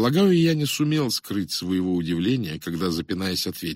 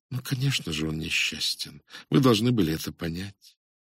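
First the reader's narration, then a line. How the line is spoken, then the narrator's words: Quiet woman. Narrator (Russian): Женщина тихо сказала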